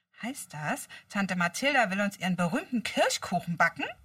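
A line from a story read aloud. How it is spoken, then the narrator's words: Excited question. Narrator (German): fragte Peter aufgeregt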